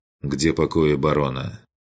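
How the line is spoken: Dry inquiry. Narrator (Russian): Сухо поинтересовался

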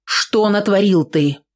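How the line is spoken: Stern question. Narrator (Russian): строго спросила Аксинья

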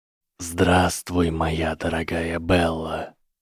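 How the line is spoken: Icy whisper. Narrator (Russian): произнес ледяной шепот

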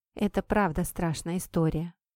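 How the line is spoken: Quiet. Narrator (Russian): тихо сказала Кэт

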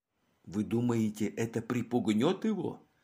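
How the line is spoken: Quiet knowing speech. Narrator (Russian): Мегре, который сразу все понял, тихо проговорил

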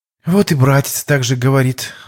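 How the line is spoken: Sigh. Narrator (Russian): вздохнула Ирина

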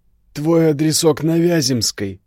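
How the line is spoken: Through gritted teeth. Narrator (Russian): процедил отец Ярославы

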